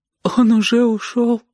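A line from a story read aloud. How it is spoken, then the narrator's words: Tearful question. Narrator (Russian): спросила она сквозь слезы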